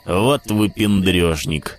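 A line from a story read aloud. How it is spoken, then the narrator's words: Grumbling. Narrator (Russian): проворчал Зайка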